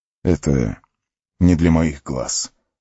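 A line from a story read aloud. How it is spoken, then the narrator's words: Tired squinting. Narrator (Russian): устало сощурился Арагорн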